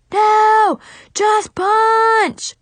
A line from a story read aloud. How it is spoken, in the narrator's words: he roared